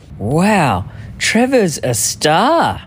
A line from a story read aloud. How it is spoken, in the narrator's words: the photographer said